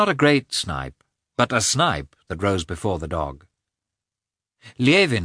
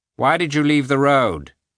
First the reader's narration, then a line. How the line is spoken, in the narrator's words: asked dryly